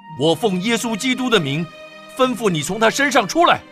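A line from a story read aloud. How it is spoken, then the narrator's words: Annoyed, commanding. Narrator (Chinese): 保罗就心中厌烦，转身对那鬼说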